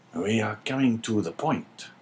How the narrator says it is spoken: whispered the governor

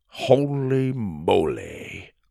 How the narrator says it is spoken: Grandpa muttered

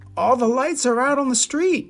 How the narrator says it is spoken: Rocky yelped

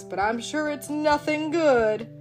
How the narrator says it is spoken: Bigelow grumbled at the two dogs

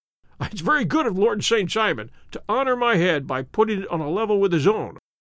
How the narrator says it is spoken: said Sherlock Holmes, laughing

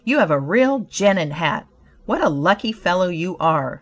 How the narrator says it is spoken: one man exclaimed

